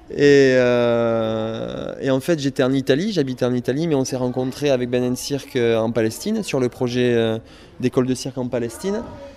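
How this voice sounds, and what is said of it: Slight southwestern French accent. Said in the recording (French): “un petit accent du sud-ouest ... Du sud-ouest, c'est ça.”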